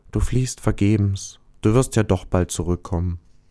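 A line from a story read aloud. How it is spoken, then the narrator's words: Sad quiet star. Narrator (German): Der Stern traurig sagte leise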